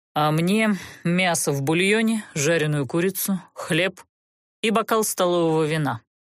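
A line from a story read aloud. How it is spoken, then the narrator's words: Commanding order. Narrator (Russian): властно приказал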